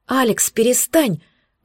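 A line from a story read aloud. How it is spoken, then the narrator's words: Breathless exhale. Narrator (Russian): выдохнула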